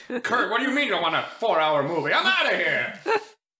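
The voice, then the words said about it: Imitated Transatlantic accent. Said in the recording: “That's how Kevin Costner talks. Transatlantic accent.”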